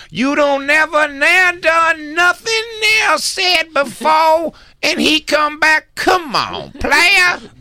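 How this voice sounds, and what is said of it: Imitates another person's voice. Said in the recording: “my impression”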